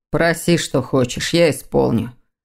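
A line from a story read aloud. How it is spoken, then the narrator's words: Hollow, muffled voice. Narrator (Russian): глухо проговорил незнакомец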